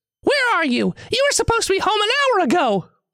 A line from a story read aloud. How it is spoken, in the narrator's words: The voice screams on the other end of the line